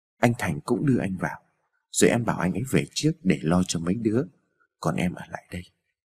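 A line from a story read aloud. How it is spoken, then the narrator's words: Gentle. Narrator (Vietnamese): Tuyết Ngân dịu dàng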